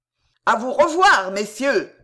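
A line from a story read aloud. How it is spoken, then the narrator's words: Shouted. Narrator (French): leur cria Pardaillan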